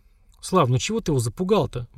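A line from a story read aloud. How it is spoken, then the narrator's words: Gentle interjection. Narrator (Russian): мягко вмешалась Лера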